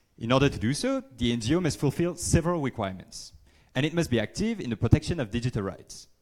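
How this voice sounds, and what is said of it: Speaker's own non-native accent. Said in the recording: “Sorry about my accent.”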